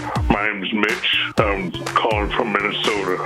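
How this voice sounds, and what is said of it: Fake very deep voice. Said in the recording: “You got a very deep voice... Is that your real voice?... Why'd you use a fake voice?”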